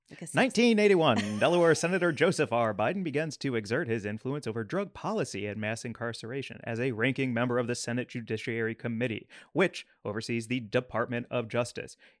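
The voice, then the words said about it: News anchor voice. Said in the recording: “Can you do like a voice? ... Like a news voice?”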